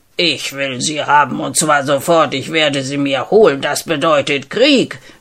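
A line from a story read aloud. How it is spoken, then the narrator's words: King shouting very loudly by phone. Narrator (German): schrie der Nachbarkönig durchs Telefon, so daß man es fast noch im Kronsaal hören konnte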